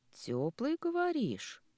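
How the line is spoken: Thoughtful drawl. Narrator (Russian): задумчиво протянула Лида

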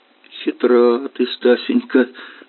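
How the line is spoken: Laughing. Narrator (Russian): рассмеялся Гордеев

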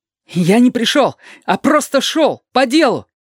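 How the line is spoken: Distant prisoner shouting. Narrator (Russian): крикнул от бревенчатой стены пленник

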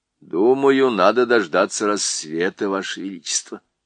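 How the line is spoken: Plain. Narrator (Russian): ответил доктор Корнелиус

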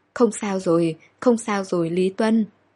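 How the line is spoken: Shaky reassuring voice. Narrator (Vietnamese): Tay cô run rẩy nhưng miệng vẫn nói

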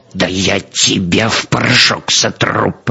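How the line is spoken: Furious, through gritted teeth. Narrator (Russian): процедил разъяренный Клейн-Михель

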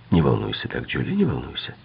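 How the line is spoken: Calm. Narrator (Russian): спокойно сказал Дон

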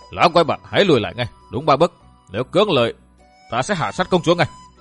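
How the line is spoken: Hissing with hatred. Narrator (Vietnamese): gằn giọng hận

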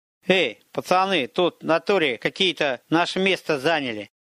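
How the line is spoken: Nasal, lisping voice. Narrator (Russian): Голос был одновременно и гнусавым, и несколько шепелявым

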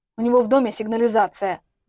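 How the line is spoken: Grumbling. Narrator (Russian): буркнул он

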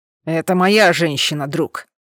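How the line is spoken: Barking. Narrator (Russian): рявкнул

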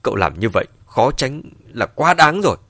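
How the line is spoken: Angry, through gritted teeth. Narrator (Vietnamese): trên mặt mang theo vài phần giận dữ, nghiến lặng nghiến lợi nói

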